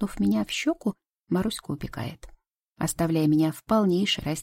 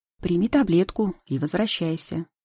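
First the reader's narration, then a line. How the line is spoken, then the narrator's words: Dry clipped father. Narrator (Russian): сухо чеканит мой отец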